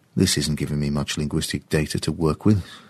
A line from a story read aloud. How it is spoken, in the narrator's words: James muttered to himself